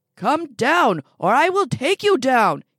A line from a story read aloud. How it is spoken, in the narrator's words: shouts